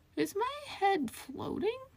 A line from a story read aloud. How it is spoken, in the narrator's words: Feral asked dreamily